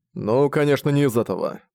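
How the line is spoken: Grumbling. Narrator (Russian): проворчал Зориан

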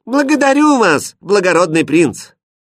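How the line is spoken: Loud. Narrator (Russian): громко сказала

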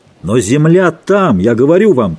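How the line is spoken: Shouting. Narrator (Russian): кричал им с юта капитан Давенпорт

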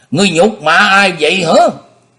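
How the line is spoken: Angry. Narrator (Vietnamese): Bọc Dương Chiều giận dữ

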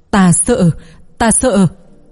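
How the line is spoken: Old man, anxious and afraid. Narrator (Vietnamese): Lão ta có chút lo lắng và sợ hãi, nói

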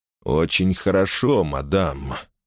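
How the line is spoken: Approving purr. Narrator (Russian): одобрительно промурлыкал герцог

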